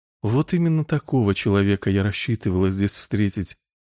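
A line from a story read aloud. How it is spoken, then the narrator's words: Girl's feigned sigh. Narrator (Russian): снова притворно вздохнула девушка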